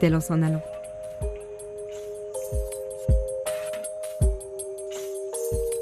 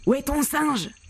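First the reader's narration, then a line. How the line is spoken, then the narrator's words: Shouting. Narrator (French): crie-t-il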